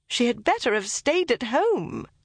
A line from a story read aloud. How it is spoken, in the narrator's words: cried Elizabeth